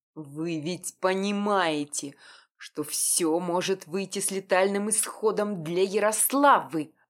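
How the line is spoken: Werewolf hissing through teeth. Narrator (Russian): Сквозь зубы процедил оборотень

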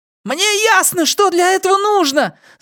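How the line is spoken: Mouse yelling loudly. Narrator (Russian): заорал мышь как можно громче, уверенный, что Пузан собирается вышибить ему мозги

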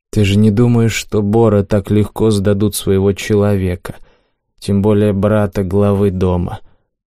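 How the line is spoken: Sighing explanation. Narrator (Russian): Вздохнув, попытался Ким объяснить мне

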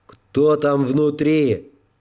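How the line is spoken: Booming amplified voice outside. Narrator (Russian): прогремел усиленный голос снаружи

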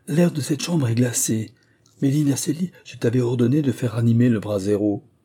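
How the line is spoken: Shivering cry. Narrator (French): le roi s'écria en frissonnant

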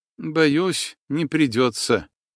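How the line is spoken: Dejected, mournful voice. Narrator (Russian): Настя отозвалась каким-то упавшим голосом, словно на похоронах или поминках

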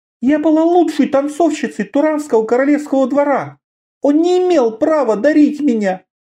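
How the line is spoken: Frightened gasp. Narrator (Russian): Внезапно испуганно задохнулась

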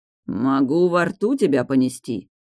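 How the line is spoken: Clear growl. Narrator (Russian): прорычал вполне отчетливо

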